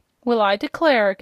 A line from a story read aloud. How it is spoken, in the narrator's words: gasped Aunt Em